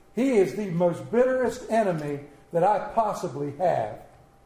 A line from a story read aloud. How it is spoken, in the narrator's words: exclaimed the old preacher